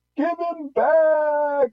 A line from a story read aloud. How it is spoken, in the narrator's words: she pleaded